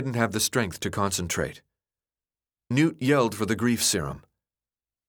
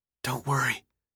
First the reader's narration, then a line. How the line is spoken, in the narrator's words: he whispered, hoping they could hear him